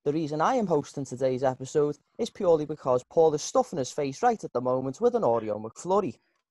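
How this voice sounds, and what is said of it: Scouse accent. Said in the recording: “the Scouse accent”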